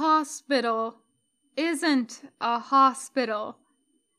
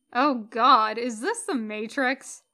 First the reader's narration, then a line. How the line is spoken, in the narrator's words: she laughs